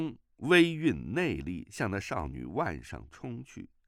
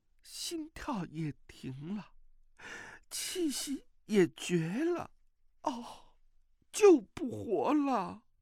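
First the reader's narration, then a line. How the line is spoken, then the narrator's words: Woman crying. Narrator (Chinese): 那美妇哭道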